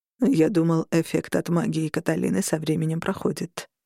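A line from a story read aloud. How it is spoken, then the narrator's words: Quiet. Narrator (Russian): тихо сказал Роган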